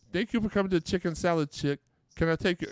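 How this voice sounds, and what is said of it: Poor put-on Minnesota accent. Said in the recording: “I do a horrible Minnesota accent, by the way. That was supposed to be my Minnesota accent.”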